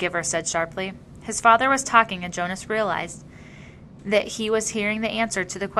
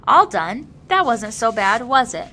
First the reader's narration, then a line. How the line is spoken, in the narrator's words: Jonas heard his father say cheerfully